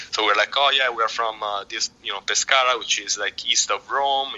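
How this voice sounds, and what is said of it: Italian accent. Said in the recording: “from our accent asks us, oh, where are you from? ... I'm from Italy”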